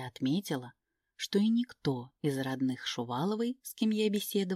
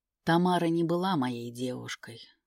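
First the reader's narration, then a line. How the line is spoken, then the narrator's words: Tired correction. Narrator (Russian): устало поправил он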